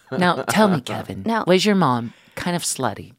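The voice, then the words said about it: Terry Gross impression. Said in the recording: “Terry Gross impersonation”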